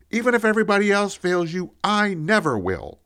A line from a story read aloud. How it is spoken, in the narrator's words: I blurted out